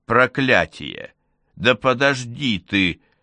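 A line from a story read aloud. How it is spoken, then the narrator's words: Growling. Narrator (Russian): зарычал Олаф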